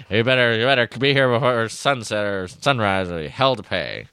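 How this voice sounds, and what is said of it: Weird impression of Aunt Beru. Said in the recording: “my Beru impression gets increasingly weird”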